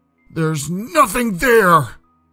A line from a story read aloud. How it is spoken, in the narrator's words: he yelled, growing increasingly distraught